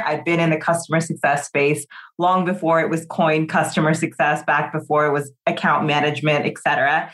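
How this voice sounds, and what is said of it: American Californian accent. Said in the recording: “I am an American living in London. The California accent has still hung on, even though it's 10 years abroad.”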